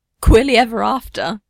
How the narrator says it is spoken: Steve laughs

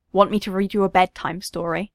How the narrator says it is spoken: asked, tongue firmly in cheek

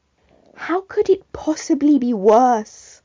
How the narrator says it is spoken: Con moaned

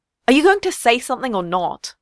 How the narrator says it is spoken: Con finally snapped

